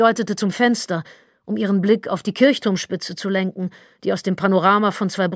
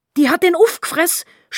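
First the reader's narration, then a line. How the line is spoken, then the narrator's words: Angrier scream. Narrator (German): schrie noch zorniger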